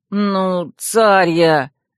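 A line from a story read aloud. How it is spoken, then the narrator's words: Unhappy moan. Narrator (Russian): несчастным тоном простонал принц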